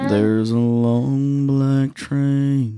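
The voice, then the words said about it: Imitates another person's singing voice. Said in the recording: “That's my impression of Josh Turner.”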